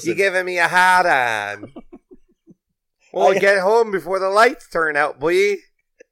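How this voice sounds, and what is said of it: Put-on Minnesota accent. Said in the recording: “Don't you know what his accent is ... Fucking Minnesota.”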